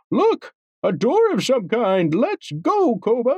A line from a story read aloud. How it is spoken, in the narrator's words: exclaimed